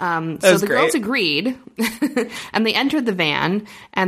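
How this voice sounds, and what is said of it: Usual voice. Nothing is said of it.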